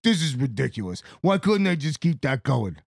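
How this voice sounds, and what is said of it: Put-on accent imitating another person. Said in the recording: “I don't know why I just gave you that accent.”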